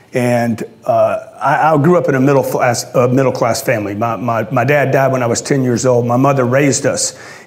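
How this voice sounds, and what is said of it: Louisiana Southern accent. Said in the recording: “I grew up in a little town in Louisiana ... You probably hear the accent.”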